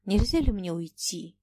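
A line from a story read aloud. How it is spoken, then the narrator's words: Quiet question. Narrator (Russian): тихо спросил Фома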